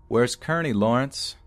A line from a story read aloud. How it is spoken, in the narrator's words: I shouted after him one last time